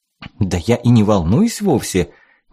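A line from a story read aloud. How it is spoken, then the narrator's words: Forced laugh. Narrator (Russian): неестественно рассмеялась Лена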